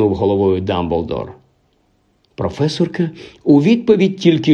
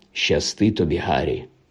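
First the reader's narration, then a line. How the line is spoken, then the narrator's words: Quiet. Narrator (Ukrainian): тихо промовив він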